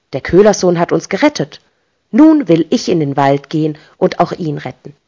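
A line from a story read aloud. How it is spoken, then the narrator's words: Said angrily. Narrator (German): wurde wütend und sagte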